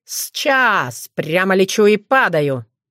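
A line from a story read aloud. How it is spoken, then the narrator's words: Mocking. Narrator (Russian): Насмешливо отозвался Крамиш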